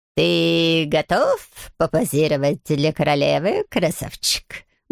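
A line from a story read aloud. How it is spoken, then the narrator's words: Purring. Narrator (Russian): мурлыкал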